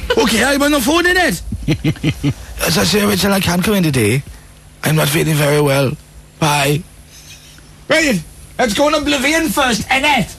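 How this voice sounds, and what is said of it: Put-on Welsh accent. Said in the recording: “That's my Welsh accent... my Welsh accent's improved... it's certainly not the worst on the network”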